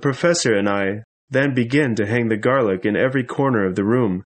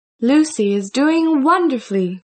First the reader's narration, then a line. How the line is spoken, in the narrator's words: said in a cheerful voice